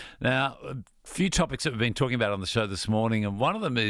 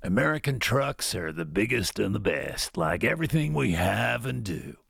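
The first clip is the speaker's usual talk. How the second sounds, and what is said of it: Put-on American accent. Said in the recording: “can you please read this in an American accent?”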